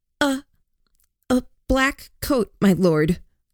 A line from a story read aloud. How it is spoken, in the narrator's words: Lillian stuttered